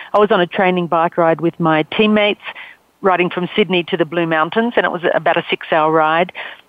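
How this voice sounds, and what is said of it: Australian accent. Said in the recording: “I'm Australian. You can tell from my accent.”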